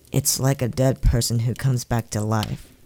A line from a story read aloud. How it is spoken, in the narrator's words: the boy explained, his voice wavering very slightly